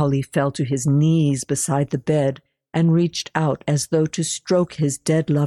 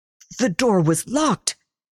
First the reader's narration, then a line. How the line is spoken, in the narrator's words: he sputtered